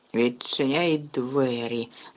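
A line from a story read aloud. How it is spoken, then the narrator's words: Hiss. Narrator (Ukrainian): засичала на Гаррі тітка Петунія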